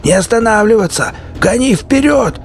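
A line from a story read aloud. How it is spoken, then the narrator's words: Shout. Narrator (Russian): закричал Сивый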